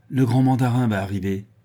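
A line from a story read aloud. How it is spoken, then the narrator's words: Curt, haughty cry. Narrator (French): s'écria-t-il d'un ton bref et plein de morgue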